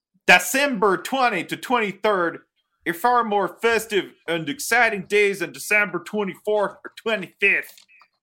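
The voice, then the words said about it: Put-on Pittsburgh Yinzer accent. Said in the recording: “doing the accent ... once in English and once in Yinzer ... It turned into Swedish Chef”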